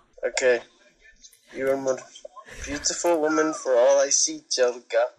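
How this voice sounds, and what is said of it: Badly done put-on accent. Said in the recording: “You have worst accent I ever hear in all of life ... Worst accent I ever hear ... That is not even an accent, but I have to give him a big A for effort”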